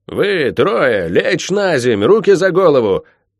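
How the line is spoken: Roaring over loudspeakers. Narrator (Russian): проревела из незримых громкоговорителей

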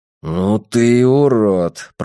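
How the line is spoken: Grumbling. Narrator (Russian): проворчал Драккайнен

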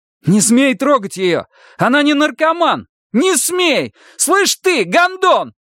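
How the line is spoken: Deafened man shouting. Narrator (Russian): крикнул оглохший Илья

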